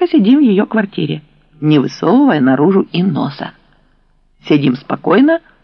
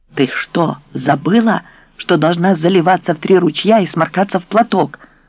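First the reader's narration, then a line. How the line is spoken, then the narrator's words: Hissed. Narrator (Russian): прошипела я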